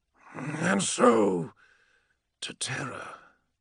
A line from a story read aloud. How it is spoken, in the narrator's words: murmured, feeling a hot line of acidic drool run down his chin